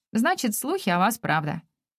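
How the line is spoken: Restrained, dry. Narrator (Russian): отвечает сдержанно и сухо

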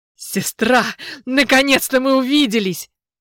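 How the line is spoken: Warm joyful exclamation. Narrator (Russian): воскликнул он с такой теплотой, будто мы были разлучены в младенчестве, и он всю жизнь меня искал

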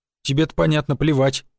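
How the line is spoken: Grumbling driver. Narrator (Russian): буркнул водила

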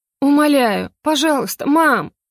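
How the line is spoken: Near sobbing. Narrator (Russian): Настя почти рыдала

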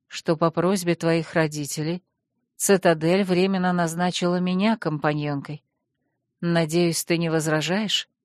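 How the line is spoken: Calm announcement. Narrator (Russian): спокойно сообщила леди Калиана

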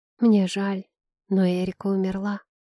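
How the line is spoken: Thin, barely audible voice. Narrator (Russian): произнесла я чужим тонким, едва слышным голосом

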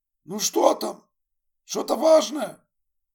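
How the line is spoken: Shouting. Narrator (Russian): крикнул Энди

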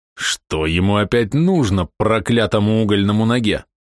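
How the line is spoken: Angry spitting remark. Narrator (Russian): зло сплюнул себе под ноги Блез

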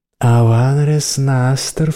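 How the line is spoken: Silky seductive purr. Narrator (Russian): вкрадчиво промурлыкала, парнезийски

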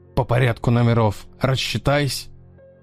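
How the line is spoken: Slightly hoarse voice. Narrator (Russian): Голос становится немного хриплым

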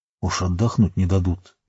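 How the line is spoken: Crowd whispering. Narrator (Russian): перешептывались люди

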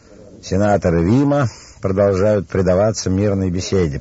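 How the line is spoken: Resonant, mocking. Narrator (Russian): проговорил он звучно и насмешливо

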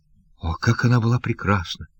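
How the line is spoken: Sad whisper. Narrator (Russian): прошептал он грустным голосом

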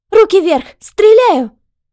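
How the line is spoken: Shout. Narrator (Russian): крикнула она

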